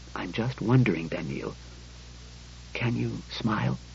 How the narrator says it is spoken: He spoke in a casual whisper

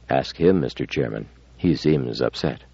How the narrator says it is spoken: Bailey said again, very softly, reluctant to draw attention away from Amadiro

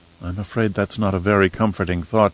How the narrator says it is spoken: she murmured, her green eyes bright with unshed tears

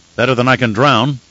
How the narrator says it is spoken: the redhead said

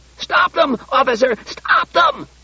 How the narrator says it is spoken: The manager was shrieking

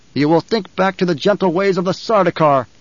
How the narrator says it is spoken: Paul snapped

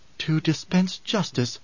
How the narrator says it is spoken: murmured

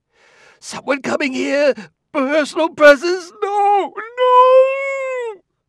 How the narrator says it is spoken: The second no was a shriek

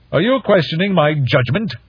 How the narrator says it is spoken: Shuang Yu snapped

